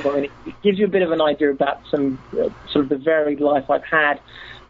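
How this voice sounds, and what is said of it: Non-American, non-Seattle accent. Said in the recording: “as you can tell from my accent, I'm not from Seattle”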